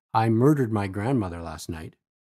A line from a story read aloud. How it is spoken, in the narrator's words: President Roosevelt mumbled to each of them